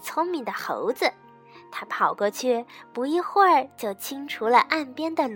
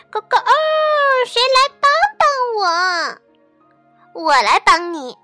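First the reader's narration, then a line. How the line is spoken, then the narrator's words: Loud cry. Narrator (Chinese): 幸运的鸡 大声地叫起来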